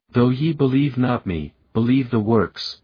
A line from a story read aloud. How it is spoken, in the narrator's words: said Jesus